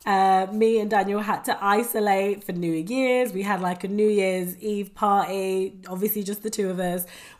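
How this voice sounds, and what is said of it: Voice sounds sick, not fully well. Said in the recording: “you can probably tell from my voice that I'm not 100% right now ... I had COVID”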